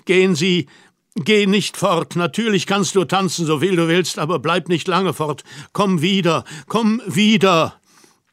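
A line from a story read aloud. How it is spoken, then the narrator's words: Pleading call. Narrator (German): rief flehend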